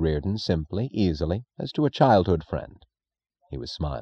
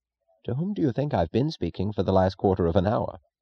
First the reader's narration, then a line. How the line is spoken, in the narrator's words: Reardon chuckled, in the manner of acknowledging an opponent's round